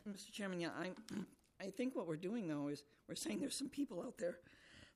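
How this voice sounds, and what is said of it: Hoarse, failing voice. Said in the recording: “I'm sorry, I've lost my voice. I'll get a throat lozenge”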